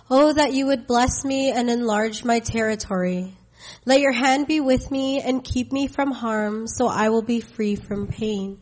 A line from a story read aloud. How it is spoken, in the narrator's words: Jabez cried out to the God of Israel